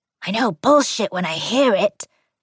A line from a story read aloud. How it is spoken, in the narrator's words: Gran had hissed back